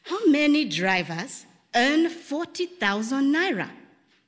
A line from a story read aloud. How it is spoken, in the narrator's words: Inze asked him